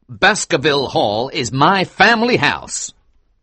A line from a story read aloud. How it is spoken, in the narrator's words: replied angrily